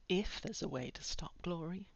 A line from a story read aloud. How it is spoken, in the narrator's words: Buffy said quietly